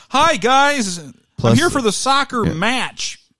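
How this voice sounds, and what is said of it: Exaggerated American accent. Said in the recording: “your most American accent”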